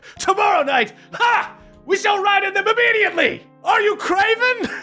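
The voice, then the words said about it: Loud shouting character voice. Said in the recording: “everybody hears him loudly just be like ... as he's shouting”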